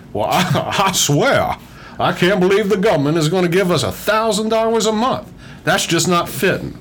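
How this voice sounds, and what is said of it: Foghorn Leghorn cartoon voice impression. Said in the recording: “do a Foghorn Leghorn impression ... this is sort of the voice I use whenever I'm trying to portray someone of a different intellect”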